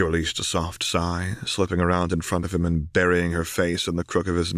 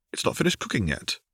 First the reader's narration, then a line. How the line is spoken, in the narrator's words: Harry said